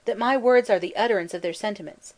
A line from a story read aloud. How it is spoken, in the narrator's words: cried Badenoch